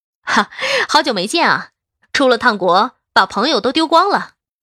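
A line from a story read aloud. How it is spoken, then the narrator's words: Hearty laughter. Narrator (Chinese): 孟凡玲听到是我，爽朗的笑了起来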